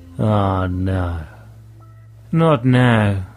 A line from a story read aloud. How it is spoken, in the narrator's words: sighed